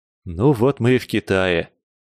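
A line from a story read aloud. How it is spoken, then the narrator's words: Relieved exhale. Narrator (Russian): С облегчением выдохнул сухопутный Федя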